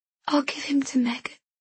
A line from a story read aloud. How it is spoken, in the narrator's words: I whisper